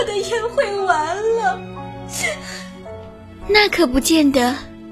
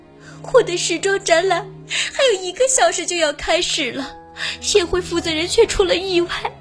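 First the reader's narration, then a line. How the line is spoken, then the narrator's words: Weeping. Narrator (Chinese): 苏菲亚夫人哭哭啼啼地说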